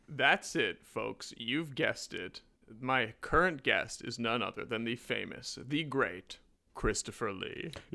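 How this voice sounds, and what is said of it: Comic talk-show host character voice. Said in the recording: “that was my Jiminy Glick impression right there ... Martin Short”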